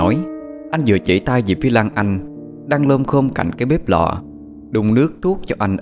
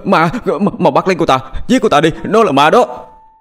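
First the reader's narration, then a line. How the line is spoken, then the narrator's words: Panicked yelping screams. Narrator (Vietnamese): anh giật mình hốt hoảng, la lên oai oái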